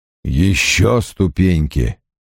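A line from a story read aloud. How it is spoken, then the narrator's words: Mumbled. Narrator (Russian): пробормотал Страйк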